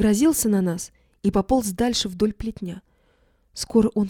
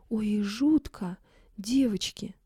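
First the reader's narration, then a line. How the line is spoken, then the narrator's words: Sigh. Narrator (Russian): вздохнула Фима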